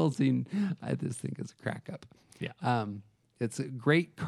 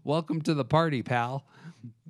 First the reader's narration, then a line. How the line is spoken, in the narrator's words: yells out at the police officer